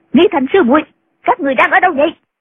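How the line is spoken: Shouting again. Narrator (Vietnamese): Nghi Hòa lại quát

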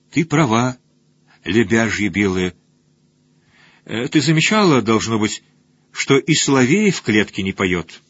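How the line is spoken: Sighing. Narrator (Russian): Бёдвельд вздохнула

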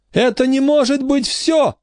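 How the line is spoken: Screamed. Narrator (Russian): закричала

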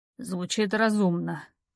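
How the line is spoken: Through gritted teeth. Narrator (Russian): цедит Виха сквозь зубы

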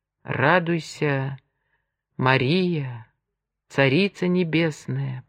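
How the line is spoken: Whisper. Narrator (Russian): прошептал он

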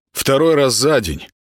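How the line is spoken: Unconscious muttering aloud. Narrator (Russian): пробурчал он вслух, не осознавая этого

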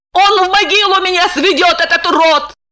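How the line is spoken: Sobbing. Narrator (Russian): зарыдала она

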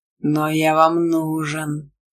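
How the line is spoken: Vicious hiss. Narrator (Russian): злобно прошипел адский бурундук

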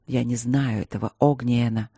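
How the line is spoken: Soft with warning undertone. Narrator (Russian): мягко ответил он, но в голосе его слышалось предупреждение

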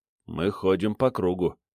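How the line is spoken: Quiet remark. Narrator (Russian): тихо заметил я Ломоносову

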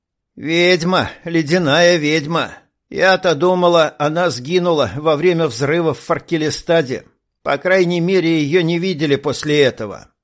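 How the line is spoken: Toothless mumbling. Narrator (Russian): ответила подруга, шамкая беззубым ртом

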